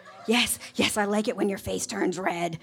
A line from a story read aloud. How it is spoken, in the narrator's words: whispered the director